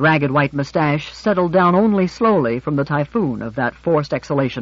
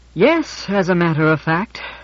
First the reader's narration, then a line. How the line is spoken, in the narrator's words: said George, heaving an enormous sigh